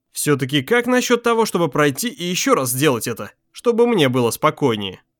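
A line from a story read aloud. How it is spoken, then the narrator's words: Irritated sigh. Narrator (Russian): Крис раздраженно вздохнул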